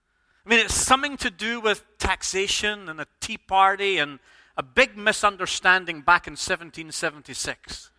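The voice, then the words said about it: Non-American English accent. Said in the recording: “you'll notice from my accent, I ain't an American”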